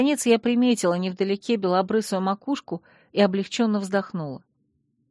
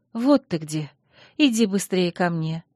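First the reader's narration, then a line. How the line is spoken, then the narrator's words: Soft call. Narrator (Russian): мягко позвала я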